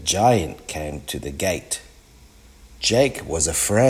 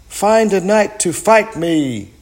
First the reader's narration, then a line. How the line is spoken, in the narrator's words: cried the giant